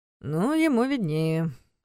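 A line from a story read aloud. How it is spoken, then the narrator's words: Grumbled. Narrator (Russian): проворчал Карпатский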